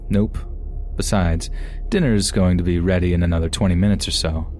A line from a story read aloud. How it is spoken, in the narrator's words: I just laughed and said